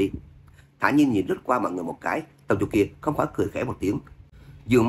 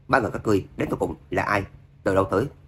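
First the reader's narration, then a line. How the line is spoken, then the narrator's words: Cold, calm. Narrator (Vietnamese): Tâm Dục kia lạnh lùng thản nhiên nói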